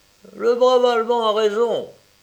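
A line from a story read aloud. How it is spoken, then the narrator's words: All exclaiming together. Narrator (French): s'écrièrent-ils tous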